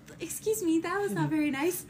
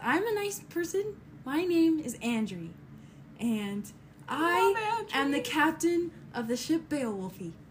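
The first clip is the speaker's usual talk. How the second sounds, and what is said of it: Girly-sounding character voice. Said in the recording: “why so girly sounding?”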